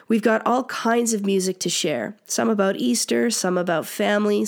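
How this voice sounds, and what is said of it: Sick, flu-affected voice. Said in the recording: “As you can probably hear from my voice, I'm battling this flu bug thing”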